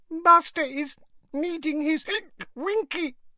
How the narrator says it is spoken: whimpered the elf

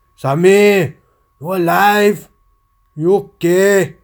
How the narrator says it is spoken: yelled

